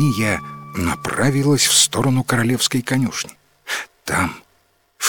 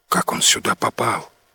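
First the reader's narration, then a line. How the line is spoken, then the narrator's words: Whispered question. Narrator (Russian): шепотом спросил Ним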